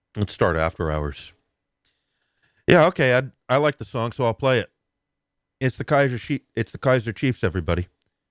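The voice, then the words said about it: Hoarse, strained voice. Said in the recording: “my voice is out”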